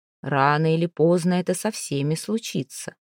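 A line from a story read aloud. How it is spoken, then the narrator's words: Even voice. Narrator (Russian): ровным голосом ответила Плезант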